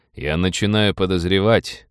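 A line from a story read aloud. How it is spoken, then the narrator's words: Gloomy. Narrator (Russian): мрачно сказал Роджер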